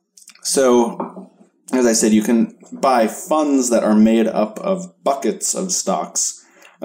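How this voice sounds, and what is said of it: Dry, cracky voice. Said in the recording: “my voice is getting kind of dry and cracky from talking so much.”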